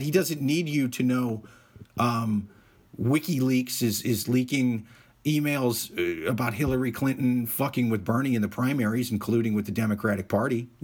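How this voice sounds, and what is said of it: Hoarse, strained voice. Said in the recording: “My voice is fucking shot”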